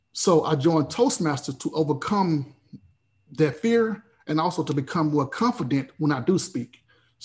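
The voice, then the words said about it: Noticeable accent, hard to understand. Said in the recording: “my accent and plus the fear of speaking ... my accent ... when someone do not understand what I'm saying”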